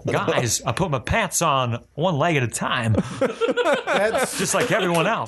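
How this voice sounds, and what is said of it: Christopher Walken impression. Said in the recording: “do a Christopher Walken impression? ... That's one of the best ones I've heard. ... It's like a 3 out of 10. ... that was pretty good walking, dude.”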